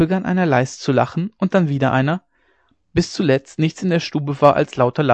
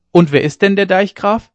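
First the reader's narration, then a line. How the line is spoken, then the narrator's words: Calling out again. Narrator (German): rief Ole Hensen wieder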